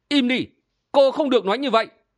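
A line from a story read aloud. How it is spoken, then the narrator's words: Furious shout. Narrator (Vietnamese): Kim Ngang Kiều tức giận tái cả mặt, hét lên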